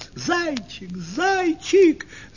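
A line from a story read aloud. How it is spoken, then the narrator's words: Girls shouting. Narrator (Russian): закричали девочки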